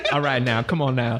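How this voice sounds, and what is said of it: Poor put-on Cajun accent. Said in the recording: “my Cajun accent ... See, that was terrible. That was worse than normal.”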